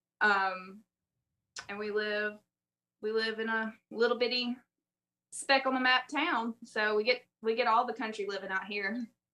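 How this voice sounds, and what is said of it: Southern US accent. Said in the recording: “my awful accent, I'm from South Alabama, southern Mississippi area”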